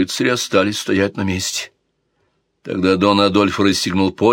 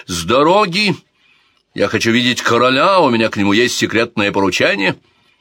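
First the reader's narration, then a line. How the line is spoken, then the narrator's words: Loud shout. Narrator (Russian): дон Адольфо громко закричал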